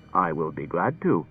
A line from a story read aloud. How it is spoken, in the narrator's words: said R